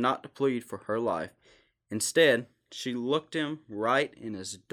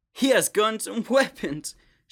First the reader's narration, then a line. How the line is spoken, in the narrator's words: she sobbed